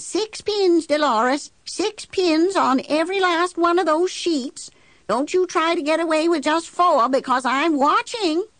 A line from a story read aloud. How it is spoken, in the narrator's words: Every now and then she'd holler down